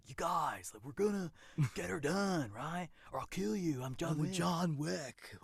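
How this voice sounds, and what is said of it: Bad Keanu Reeves impression. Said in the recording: “The worst Keanu Reeves impression I've ever done. ... We're all bad. only he's perfect at it.”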